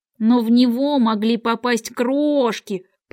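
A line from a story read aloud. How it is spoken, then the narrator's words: Grumbling. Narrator (Russian): проворчал шляпник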